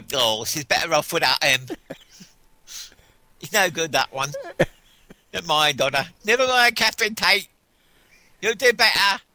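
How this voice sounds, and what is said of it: Old English lady voice. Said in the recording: “impersonations of old English ladies”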